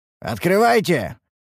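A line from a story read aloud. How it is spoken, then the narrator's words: Sharp shout. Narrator (Russian): прикрикнули мы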